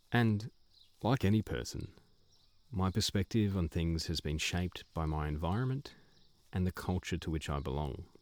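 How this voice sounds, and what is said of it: Australian accent. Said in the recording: “raised in what is today a Western nation, the nation of Australia. You can probably tell from my voice.”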